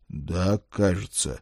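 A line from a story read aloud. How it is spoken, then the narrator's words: Glum agreement. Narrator (Russian): уныло согласился я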